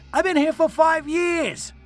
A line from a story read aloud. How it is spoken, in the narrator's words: I shouted defensively